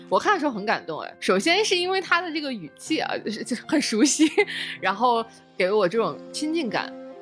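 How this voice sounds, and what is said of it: Northeastern Chinese accent. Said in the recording (Chinese): “大家已经听出来了，今天跟我搭档的是两位东北人”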